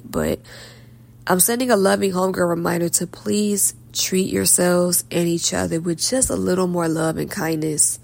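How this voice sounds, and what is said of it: Slightly hoarse voice. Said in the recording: “I'm a little hoarse because it's late.”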